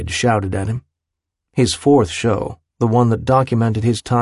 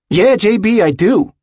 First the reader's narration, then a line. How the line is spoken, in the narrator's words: he'd shouted back at him